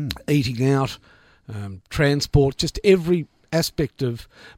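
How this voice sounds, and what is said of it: Usual voice. Nothing is said of it.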